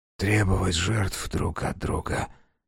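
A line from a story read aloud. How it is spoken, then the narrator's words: Barely audible whisper. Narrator (Russian): произнес Таквал едва слышным шепотом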